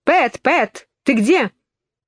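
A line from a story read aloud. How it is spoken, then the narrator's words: Angry shout. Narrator (Russian): кто-то, конечно, кролик, сердито закричал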